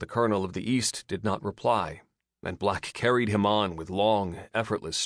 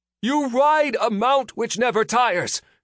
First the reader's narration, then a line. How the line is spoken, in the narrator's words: called out the man